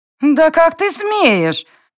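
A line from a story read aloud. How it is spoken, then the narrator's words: Hysterical shriek. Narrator (Russian): истерично взвизгнула блондинка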